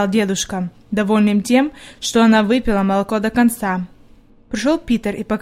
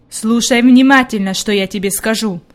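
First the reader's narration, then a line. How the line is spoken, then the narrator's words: Stern. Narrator (Russian): строго сказал он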